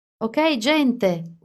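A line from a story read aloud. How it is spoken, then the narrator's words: Shouted. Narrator (Italian): urlò Alice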